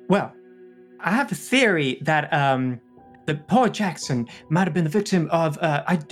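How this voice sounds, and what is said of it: Inconsistent put-on American accent. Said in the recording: “my accent is everywhere, and I'm really sorry. Any American listeners, this is what you guys sound like to me, I guess... I'm just bad at accents.”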